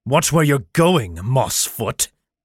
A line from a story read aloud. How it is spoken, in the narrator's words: snarled the tall figure